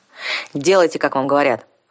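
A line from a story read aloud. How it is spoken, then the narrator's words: Growl. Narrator (Russian): рыкнул вампир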